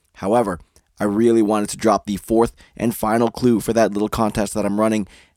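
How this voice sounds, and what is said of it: Sick, scratchy, hoarse voice. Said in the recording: “hear it in my voice ... I'm fighting a cold and a cough along with a painfully scratchy throat”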